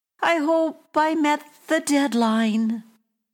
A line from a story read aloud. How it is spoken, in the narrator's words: called out